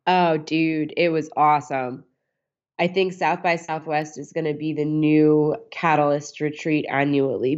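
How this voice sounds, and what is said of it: Froggy, sick-sounding voice. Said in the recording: “I'm pretty sick ... my voice may sound a little bit froggy”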